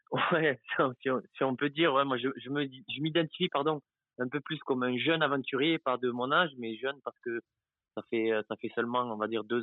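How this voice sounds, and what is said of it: Southern French Béziers accent. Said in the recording (French): “Oh, le petit accent... Béziers, ah oui, c'est ça l'accent.”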